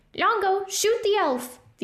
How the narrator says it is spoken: the other one cried

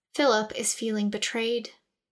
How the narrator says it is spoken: Reverence explained in a low voice

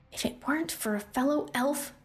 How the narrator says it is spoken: she said under her breath

